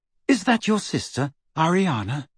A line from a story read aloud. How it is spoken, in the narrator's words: said Hermione rather timidly